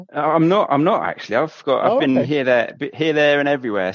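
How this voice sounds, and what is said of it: Regional English accent. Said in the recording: “I could tell from the accents.”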